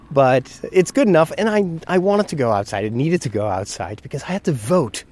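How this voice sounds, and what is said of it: Congested, stuffed-up voice from cold. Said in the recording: “You may still hear that my head is a bit stuffed and my voice is still not what it is normally”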